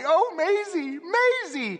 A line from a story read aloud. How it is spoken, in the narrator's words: Longridge burst out sobbing, cried wildly